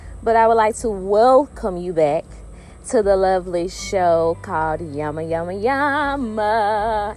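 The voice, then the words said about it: Southern US country accent. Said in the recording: “I have this southern country accent ... I am from the dirty south, Mississippi”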